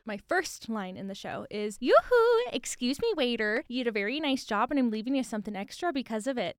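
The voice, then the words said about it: Put-on Minnesotan accent. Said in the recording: “So Minnesotan. ... That is very Minnesotan. ... it sounded different from my regular American accent, but it's still so similar.”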